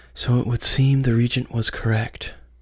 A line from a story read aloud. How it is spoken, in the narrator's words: she whispered to herself